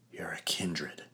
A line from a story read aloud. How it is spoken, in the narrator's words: breathed